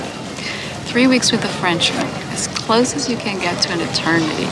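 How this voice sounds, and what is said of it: Brazilian and French tinged accent. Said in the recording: “So what's with the accent? ... Brazilian father. I grew up in Rio ... Then I married a Frenchman. That didn't do much for my accent either.”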